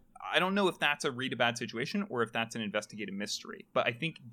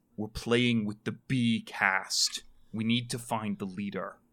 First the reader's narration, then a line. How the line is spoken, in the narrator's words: Deacon growls like in his chest, and he says